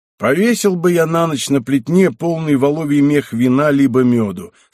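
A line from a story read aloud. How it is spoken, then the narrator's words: Plain. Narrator (Russian): сказал он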